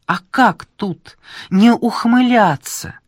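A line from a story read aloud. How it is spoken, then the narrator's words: Exclaiming. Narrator (Russian): воскликнула Ольга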